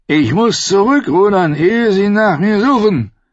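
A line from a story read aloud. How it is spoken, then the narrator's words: Calling from a boat. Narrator (German): rief Dontos aus dem Boot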